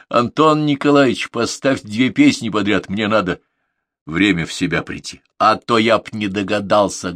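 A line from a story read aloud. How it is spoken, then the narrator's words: Bellowed. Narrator (Russian): гаркнул Свободин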